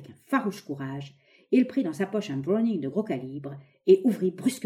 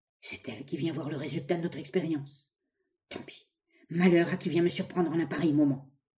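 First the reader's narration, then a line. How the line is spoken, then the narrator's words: Low muffled murmur. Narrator (French): murmura d'une voix sourde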